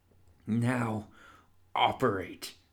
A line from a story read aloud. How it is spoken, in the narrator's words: said through gritted teeth